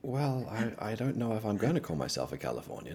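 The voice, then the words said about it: Australian accent. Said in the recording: “born and raised in Australia ... This is the accent we all have ... I thought it was Scottish ... It's definitely not Scottish”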